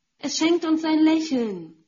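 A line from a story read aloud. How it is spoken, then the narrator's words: Woman calling out. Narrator (German): rief eine Frau mit weißem Dutt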